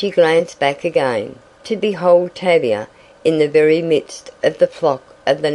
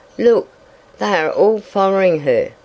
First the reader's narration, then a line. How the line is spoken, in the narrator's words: moaned Nita